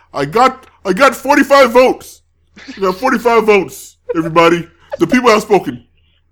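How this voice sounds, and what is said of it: Imitates another person's voice. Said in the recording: “That's a good impression, man. ... That's my Bernie. ... That's a good one, dude.”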